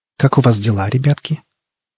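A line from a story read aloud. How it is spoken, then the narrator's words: Plain. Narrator (Russian): ответила Катерина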